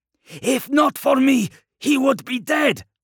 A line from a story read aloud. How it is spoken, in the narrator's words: spat the headsman